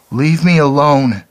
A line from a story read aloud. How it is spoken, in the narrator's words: wailed